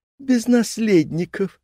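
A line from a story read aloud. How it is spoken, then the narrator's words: Laughing. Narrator (Russian): рассмеялась Эмма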